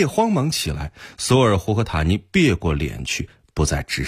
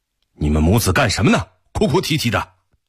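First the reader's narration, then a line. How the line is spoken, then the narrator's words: Stern. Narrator (Chinese): 托雷厉声道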